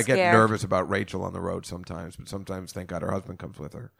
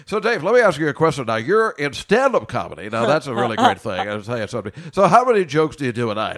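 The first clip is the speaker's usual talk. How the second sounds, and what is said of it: Cheesy radio DJ voice. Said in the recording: “should I do the radio voice?”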